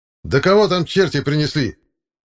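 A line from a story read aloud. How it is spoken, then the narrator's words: Shouted. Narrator (Russian): Закричал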